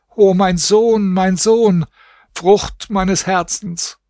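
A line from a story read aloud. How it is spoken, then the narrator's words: Wailing, lamenting scream. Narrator (German): schrie und jammerte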